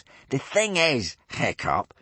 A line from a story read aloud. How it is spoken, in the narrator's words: sneered Snotlout